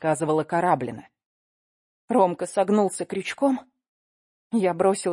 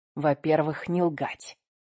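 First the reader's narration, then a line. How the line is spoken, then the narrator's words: Quiet request. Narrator (Russian): тихо попросил Акела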